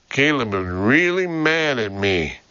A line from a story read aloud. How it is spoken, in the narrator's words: she sighed